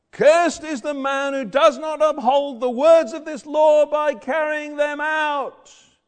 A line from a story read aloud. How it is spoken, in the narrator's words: the priests shout out